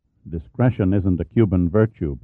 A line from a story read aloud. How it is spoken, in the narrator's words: Pitt murmured